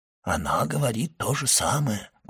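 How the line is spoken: Whisper. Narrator (Russian): прошептал ювелир

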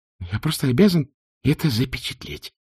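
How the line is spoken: Muttering. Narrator (Russian): пробормотал он

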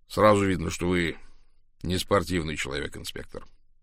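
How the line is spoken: Calm. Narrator (Russian): спокойно заметил Кларк

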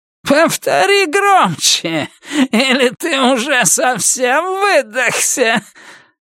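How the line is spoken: Laughing. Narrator (Russian): Уитмор все смеялась

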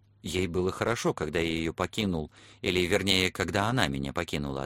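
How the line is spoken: Plain. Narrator (Russian): ответил я

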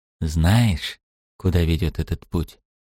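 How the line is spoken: Whisper. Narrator (Russian): прошептал Элфриш

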